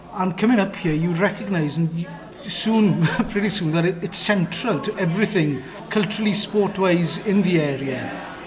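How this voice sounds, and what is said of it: South West Welsh accent. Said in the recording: “as you might be able to see or hear from my accent, I'm not from North East Wales, I'm from South West Wales”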